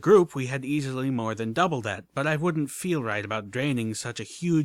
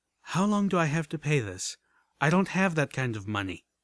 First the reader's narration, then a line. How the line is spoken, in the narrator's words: With a sigh, I asked